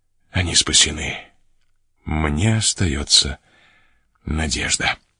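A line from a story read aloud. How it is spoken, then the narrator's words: Whispered. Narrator (Russian): прошептав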